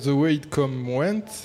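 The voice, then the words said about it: Poor put-on American accent. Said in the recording (French): “mon accent américain lamentable”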